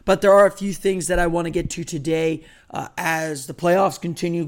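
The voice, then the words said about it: Very hoarse voice. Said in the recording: “My voice just does not want to cooperate. I am still very hoarse, as I'm sure you can tell”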